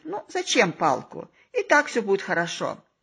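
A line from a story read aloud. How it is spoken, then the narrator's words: Calm, smiling. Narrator (Russian): Мой друг, спокойно улыбаясь, говорит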